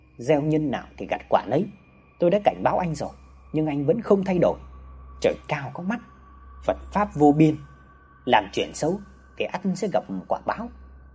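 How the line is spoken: Soft. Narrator (Vietnamese): Vị sư khẽ nói

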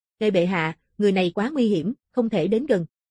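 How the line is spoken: Stern voice. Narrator (Vietnamese): Một cường giả ... nghiêm giọng

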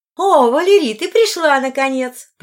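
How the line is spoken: Exaggeratedly joyful exclamation. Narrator (Russian): преувеличенно радостно воскликнула Линая

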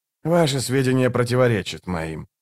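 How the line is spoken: Cold objection. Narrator (Russian): холодно возразил Барук

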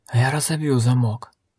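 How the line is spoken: Wheezy rasp. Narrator (Russian): просипел он

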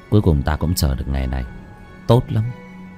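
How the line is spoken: Soft chuckle. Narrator (Vietnamese): Bác Cổ khẽ cười

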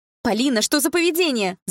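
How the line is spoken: Shouting. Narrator (Russian): закричала мама

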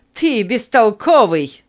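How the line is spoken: Shouting. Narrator (Russian): закричала женщина

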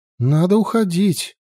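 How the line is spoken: Exclaiming. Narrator (Russian): воскликнула она

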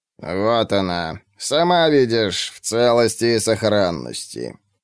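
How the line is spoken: Creaky proclamation. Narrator (Russian): скрипучим голосом провозгласил Анит

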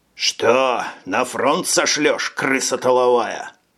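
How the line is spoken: Angry smirk. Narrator (Russian): зло усмехнулся

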